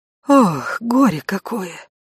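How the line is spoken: Confused muttering. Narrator (Russian): пробормотала Райка, растерянно

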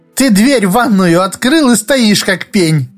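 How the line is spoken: Giggle. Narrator (Russian): хихикнула Ася

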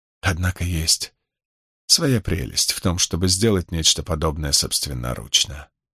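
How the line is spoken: Whisper. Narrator (Russian): прошептала избранная

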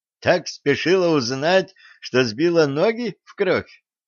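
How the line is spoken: Girl laughing loudly. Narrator (Russian): захохотала девица

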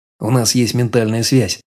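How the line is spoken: Plain. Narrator (Russian): ответил

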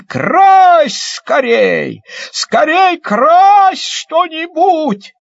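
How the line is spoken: Joyful shout. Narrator (Russian): Мишка обрадовался и как закричит

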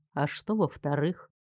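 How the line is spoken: Soft sudden question. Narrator (Russian): вдруг мягко спросил он

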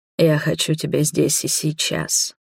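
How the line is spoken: Low husky voice. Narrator (Russian): низким хриплым голосом произнес Роберт

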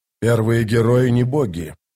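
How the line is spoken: Growling. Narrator (Russian): прорычал Карнадас

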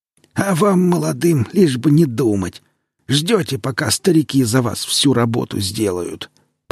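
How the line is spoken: Grumbling necromancer. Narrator (Russian): проворчал некромант

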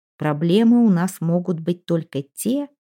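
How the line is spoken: Even-voiced reply. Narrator (Russian): ровным голосом ответил Пит

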